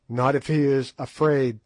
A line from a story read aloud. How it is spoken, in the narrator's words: said Twala